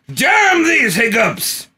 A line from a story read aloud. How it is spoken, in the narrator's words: he yelled